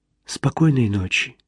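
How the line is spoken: Whisper. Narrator (Russian): прошептала она

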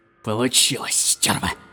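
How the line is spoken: Hoarse whisper. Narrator (Russian): хрипло прошептал Рубель

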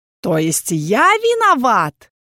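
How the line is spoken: Deadly tone, inquisitor. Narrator (Russian): убийственным голосом подытожил инквизитор

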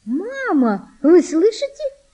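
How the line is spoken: Joyful high-pitched exclamation. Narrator (Russian): радостно, тонким голосом воскликнула Валентина

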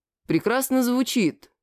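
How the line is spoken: Dry. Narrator (Russian): сухо сказал я

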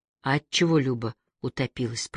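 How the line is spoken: Whisper. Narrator (Russian): прошептал Никита

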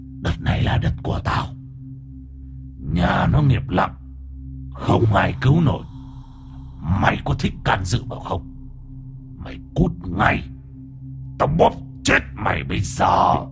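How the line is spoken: Menacing male growl. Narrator (Vietnamese): cái bóng người đàn ông cao to đen xì xì, miệng gầm gừ

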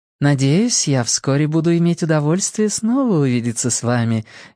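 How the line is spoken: Polite tone. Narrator (Russian): вежливым тоном произнесла мадемуазель Ларош

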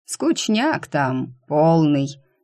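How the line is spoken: Casual drawl. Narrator (Russian): небрежно протянул Ленни

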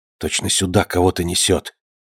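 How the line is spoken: Whispered. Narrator (Russian): прошептал Артемьев

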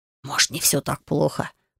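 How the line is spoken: Young man whispering. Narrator (Russian): прошептал один из парней

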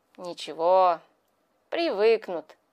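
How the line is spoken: Pleased mutter. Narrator (Russian): пробормотал он, пряча в редкой бороде довольную улыбку

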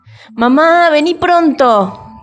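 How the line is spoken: Shouting. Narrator (Spanish): gritó

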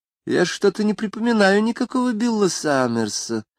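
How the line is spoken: Thoughtful. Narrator (Russian): сказала она задумчиво

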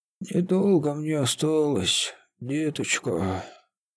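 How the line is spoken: Hoarse, strained exhale. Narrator (Russian): выдохнула Василина хрипло, натужно

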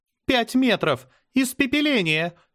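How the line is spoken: Shouted. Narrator (Russian): выкрикнула Азара

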